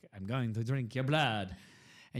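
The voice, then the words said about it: Vampire character accent. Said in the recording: “I pretend to be a vampire and I do the accent.”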